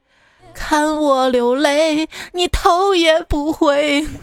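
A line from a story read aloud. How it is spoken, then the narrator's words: Old woman crying. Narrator (Chinese): 种西瓜老太婆呢，边哭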